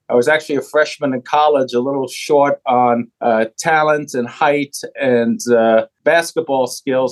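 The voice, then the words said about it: New York City accent. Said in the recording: “Born and raised in New York City, you might be able to hear some of that from the accent.”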